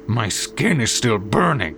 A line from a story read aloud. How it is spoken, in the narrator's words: he growled